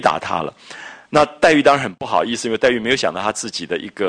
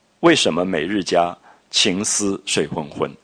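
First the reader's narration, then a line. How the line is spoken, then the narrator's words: Laughing outside window. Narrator (Chinese): 宝玉在窗外就笑着说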